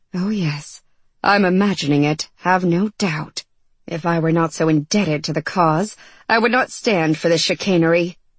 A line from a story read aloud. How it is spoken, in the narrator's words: muttering